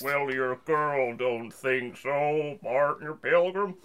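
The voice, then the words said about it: Robotic old-western cowboy impression. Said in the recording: “Robo John Wayne... That was like a Robo John Wayne.”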